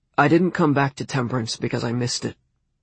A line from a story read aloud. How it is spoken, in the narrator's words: he said, his voice now flat as an iron